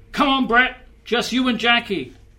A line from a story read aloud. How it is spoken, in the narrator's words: shouted